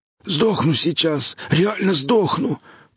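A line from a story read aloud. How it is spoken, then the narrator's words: Hoarse rasping woman. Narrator (Russian): прохрипела худая, высокая женщина с исцарапанным горлом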